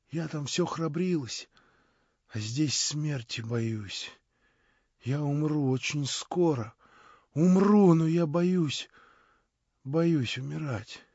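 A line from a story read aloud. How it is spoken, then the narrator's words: Frightened whisper. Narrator (Russian): шептала она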